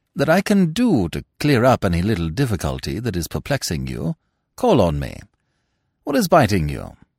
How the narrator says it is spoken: said Smith kindly

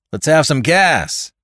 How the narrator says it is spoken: cried Tom roughly

